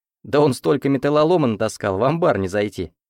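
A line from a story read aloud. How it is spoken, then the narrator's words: Chuckling. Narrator (Russian): хохотнул Андрей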